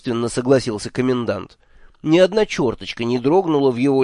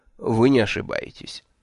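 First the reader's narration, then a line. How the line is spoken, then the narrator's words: Dry confirmation. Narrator (Russian): сухо подтвердил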